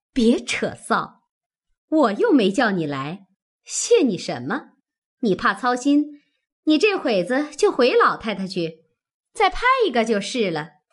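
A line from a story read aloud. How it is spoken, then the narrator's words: Laughing. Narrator (Chinese): 凤姐笑道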